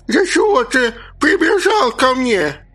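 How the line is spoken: Sudden gurgling, nasty squeaky voice. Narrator (Russian): Неожиданно проклокотала умалишенная мерзким писклявым голоском

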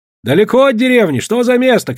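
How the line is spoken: Shouting. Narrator (Russian): кричали

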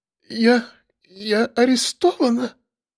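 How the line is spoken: Barely audible stammer. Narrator (Russian): Еле слышно с заиканием произнесла секретарша

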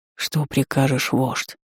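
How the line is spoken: Barely audible whisper. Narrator (Russian): едва слышно шепнул кто-то из них

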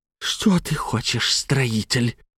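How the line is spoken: Hissing. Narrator (Russian): прошипел Михаил

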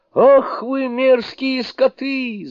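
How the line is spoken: Yelling. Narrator (Russian): заорал Суню-кун

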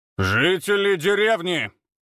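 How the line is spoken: Loud proclamation. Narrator (Russian): громко возгласил Ефим

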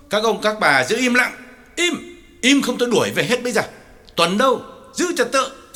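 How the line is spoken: Loud shout. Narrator (Vietnamese): Lý Trưởng phải quát lớn

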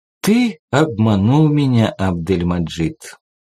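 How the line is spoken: Dejected, sinking voice. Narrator (Russian): упавшим голосом сказал Рашад

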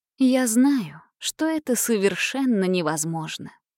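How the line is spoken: Soft reply. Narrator (Russian): мягко ответила она

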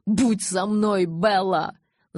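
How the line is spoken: Yelled. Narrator (Russian): завопил я

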